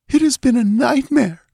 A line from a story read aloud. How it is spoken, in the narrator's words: she whimpered